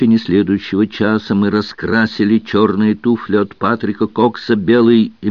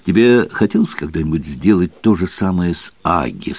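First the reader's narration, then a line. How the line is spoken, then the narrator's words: Plain question. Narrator (Russian): спросила Алиса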